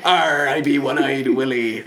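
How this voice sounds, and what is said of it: Put-on pirate accent. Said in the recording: “That is a pirate accent, though.”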